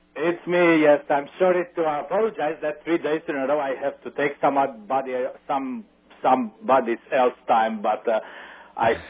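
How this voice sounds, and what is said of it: Romanian accent. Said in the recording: “that ... has a very attractive Romanian accent.”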